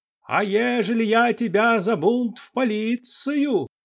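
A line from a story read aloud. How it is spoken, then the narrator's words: Sudden loud, ear-piercing proclamation. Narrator (Russian): вдруг громко, голосом резавшим уши, возглашал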